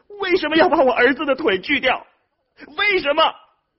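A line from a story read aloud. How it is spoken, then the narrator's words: Crying out, anguished. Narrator (Chinese): 他对周围的医护人员哭喊着说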